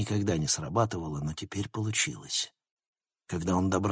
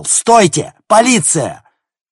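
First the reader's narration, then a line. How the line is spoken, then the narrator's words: Shout. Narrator (Russian): Логан закричал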